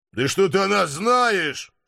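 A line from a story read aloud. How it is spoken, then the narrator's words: Snorting. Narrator (Russian): фыркнул я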